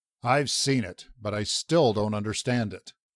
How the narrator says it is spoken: the captain growled

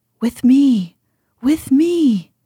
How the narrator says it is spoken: he cried

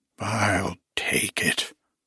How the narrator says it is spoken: growled Slavinsky with unnecessary fierceness

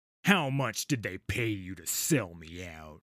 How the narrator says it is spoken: I growl

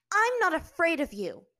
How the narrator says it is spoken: she said fiercely

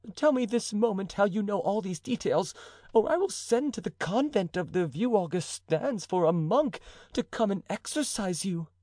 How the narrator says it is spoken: cried the duchess

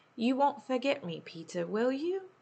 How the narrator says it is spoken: asked Wendy

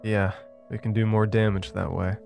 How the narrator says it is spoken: Evan said with a chuckle

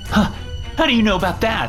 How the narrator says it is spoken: Holly stammered

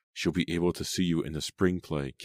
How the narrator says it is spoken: Katie said

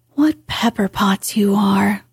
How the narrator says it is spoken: sighed Joe

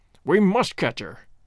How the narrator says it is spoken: cried Holmes, between his teeth

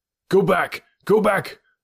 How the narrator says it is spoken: I cried to those who had accompanied me

